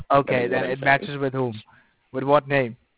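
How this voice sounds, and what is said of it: Middle Eastern or Indian accent. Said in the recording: “you have an accent ... your accent is not an accent that comes from someone named ... maybe Middle Eastern or Indian or something along those lines”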